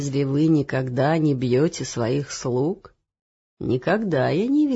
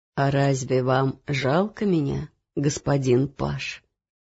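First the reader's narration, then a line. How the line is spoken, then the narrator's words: Sad, smiling. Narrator (Russian): печально улыбнулся он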